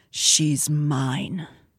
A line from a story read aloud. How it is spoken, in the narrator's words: he said quietly, but viciously enough that Devlin and his warriors nearby heard